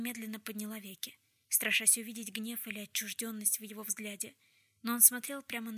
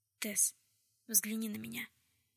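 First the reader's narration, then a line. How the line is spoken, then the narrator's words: Deep breath, then speaking. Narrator (Russian): Он вздохнул поглубже и сказал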